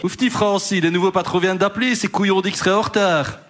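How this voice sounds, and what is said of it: Attempted Liège Belgian French accent. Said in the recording (French): “C'est quoi cet accent de Liège? ... je ne sais pas faire l'accent liégeois ... Tu veux tenter l'accent liégeois à ma place?”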